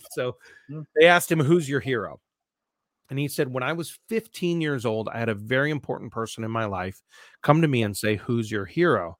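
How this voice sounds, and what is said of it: Nasal Midwestern American accent. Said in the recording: “my Midwest nasally Amston voice”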